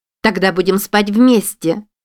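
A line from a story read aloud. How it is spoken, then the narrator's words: Nearly shouting to be heard. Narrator (Russian): почти прокричала Мадлен, чтобы ее услышали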